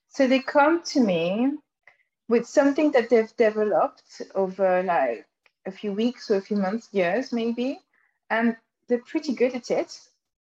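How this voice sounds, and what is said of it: French accent. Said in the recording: “my funny French accent”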